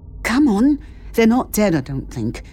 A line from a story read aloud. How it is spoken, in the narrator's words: added hesitantly